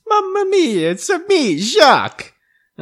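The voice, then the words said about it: Cartoonish put-on Mario-style accent. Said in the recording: “talking like this ... accent ... No, it's more of a wah! ... Mine was more Wiggum than Wario.”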